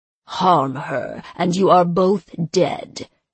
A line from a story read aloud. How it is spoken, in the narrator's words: he snarled